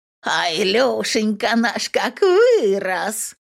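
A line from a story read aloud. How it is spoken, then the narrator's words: Old woman's wheezing voice. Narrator (Russian): Агнеса Марковна хрипит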